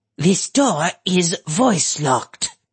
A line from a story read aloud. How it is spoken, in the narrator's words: Ak-Eek said, her voice warbled with rage